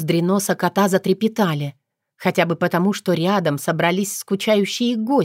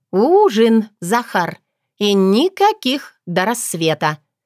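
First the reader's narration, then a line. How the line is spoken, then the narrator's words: Emphatic. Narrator (Russian): подчеркнула я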